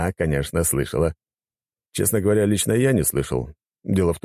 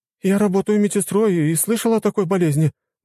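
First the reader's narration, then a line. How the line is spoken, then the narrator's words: Woman exclaiming. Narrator (Russian): воскликнула женщина из толпы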